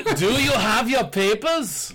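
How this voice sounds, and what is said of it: Put-on German accent. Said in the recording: “I want to say that in a German accent.”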